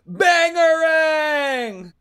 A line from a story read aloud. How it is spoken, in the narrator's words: everyone screams